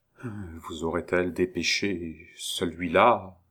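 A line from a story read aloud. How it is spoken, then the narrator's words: Stammered. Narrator (French): balbutia-t-il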